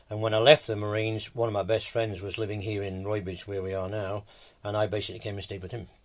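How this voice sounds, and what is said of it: English accent. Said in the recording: “I never lost my English accent, albeit my father was Irish. So there's a nice mixture for you.”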